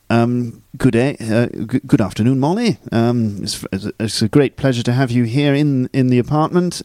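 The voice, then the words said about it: Old-fashioned posh English accent. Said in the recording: “Very posh accent... Posh. Good. I might be from London... it's rather old-fashioned version of posh.”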